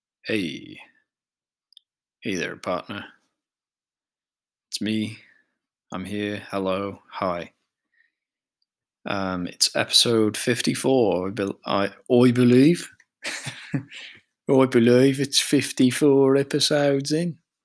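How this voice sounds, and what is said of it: Bad put-on vaguely Birmingham accent. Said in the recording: “That's such a bad accent. Don't even know what it is. ... I think it wanted to be Birmingham, but I kind of lost it somewhere along the line, and it ended up being kind of nothing.”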